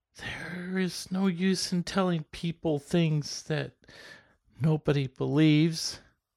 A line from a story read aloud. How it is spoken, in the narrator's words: she resumed slowly, in a gasp